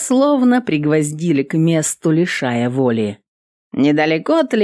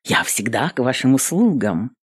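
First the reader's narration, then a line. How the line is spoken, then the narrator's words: Smirking. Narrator (Russian): Эвелин хмыкнула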